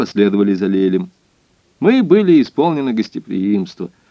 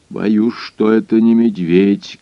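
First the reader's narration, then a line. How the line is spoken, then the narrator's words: Muffled low voice. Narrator (Russian): глухим голосом произнес хозяин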